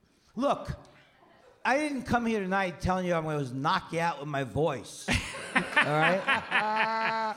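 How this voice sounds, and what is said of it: Raspy voice. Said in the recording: “My voice is raspy. It's not a bit.”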